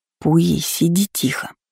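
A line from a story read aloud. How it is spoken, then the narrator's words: Barely audible hiss. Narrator (Russian): едва слышно прошипела Лола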